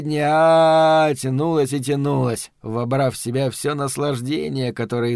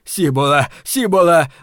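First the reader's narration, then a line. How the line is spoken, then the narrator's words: Ecstatic shouting. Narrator (Russian): восторженно кричал мусорник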